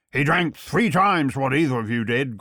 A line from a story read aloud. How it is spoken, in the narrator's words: growled Sapt